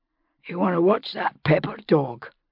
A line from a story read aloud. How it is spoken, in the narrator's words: Roger rasped